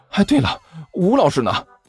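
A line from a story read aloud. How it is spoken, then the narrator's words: Breathless question. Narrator (Chinese): 甘球大口喘了几下粗气，问道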